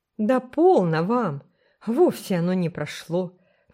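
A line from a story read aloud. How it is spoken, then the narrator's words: Loud exclamation. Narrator (Russian): во весь голос воскликнула Элен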